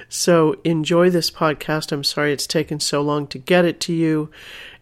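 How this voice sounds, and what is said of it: Slightly deeper, stuffed-up congested voice. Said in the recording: “I caught a cold, so you can hear the last parts of it here in my voice just a little bit. Perhaps a little deeper, a little sexier than usual, but also a little bit stuffed up.”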